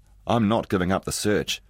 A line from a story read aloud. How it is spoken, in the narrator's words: he said